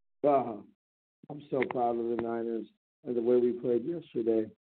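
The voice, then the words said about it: Hoarse, strained voice. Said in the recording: “my voice is totally shot... I did a lot of screaming”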